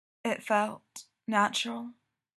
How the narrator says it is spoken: Mikey asks softly

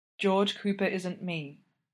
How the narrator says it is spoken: says gently

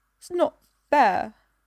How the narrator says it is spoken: she says, her voice wobbling

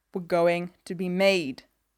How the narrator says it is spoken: Elliot snarls

